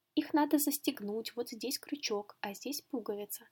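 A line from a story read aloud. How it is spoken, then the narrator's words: Calm brother. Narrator (Russian): сказал спокойно брат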